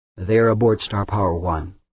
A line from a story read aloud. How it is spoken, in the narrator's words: Humphreys said flatly